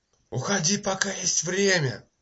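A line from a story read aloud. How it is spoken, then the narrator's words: Shout. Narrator (Russian): Крикнул Питер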